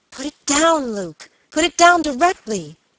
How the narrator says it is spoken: cried the girl with a look of terror

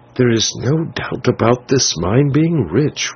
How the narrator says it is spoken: whispered the Signor

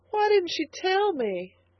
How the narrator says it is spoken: sobbed the girl

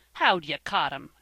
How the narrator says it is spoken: asked Van, scornfully

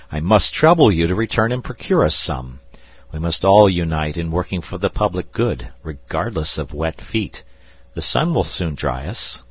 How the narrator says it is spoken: said I, laughing

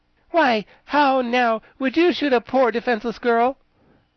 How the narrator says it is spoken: said reproachfully

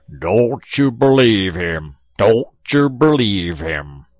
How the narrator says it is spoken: old Brer Bullfrog, he holler back

